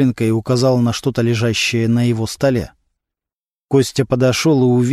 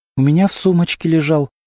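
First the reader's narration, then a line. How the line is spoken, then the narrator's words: Trembling voice. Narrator (Russian): дрожащим голосом ответила Антонина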